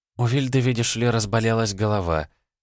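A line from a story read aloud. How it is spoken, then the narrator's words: Innocent tone. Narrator (Russian): самым невинным тоном объяснила Кайзерина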